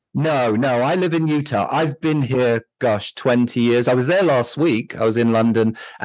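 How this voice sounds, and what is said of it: British London accent. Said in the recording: “You sound like you're from the UK or Australia ... London.”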